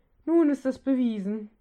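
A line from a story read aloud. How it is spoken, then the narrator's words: Dismayed groan. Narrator (German): stöhnte Gray beim Anblick des Zwerges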